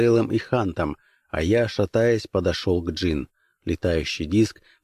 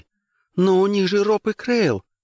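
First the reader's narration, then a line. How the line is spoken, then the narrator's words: Exclamation. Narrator (Russian): воскликнула джин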